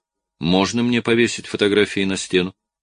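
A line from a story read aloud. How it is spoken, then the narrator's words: Soft, accentless speech. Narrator (Russian): Я произношу эти слова мягко и без акцента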